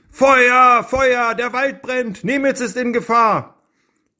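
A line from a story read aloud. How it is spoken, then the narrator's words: Running shout. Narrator (German): Floff lief die Straße entlang und rief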